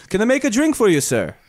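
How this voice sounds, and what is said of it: Poor attempt at Jamaican-British accent. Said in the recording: “he grew up in Jamaica. Jamaica, and then he grew up in England, so he meshes ... I'll come off sounding like Arnold Schwarzenegger half the time ... when I do his accent ... That's horrible ... it's not good”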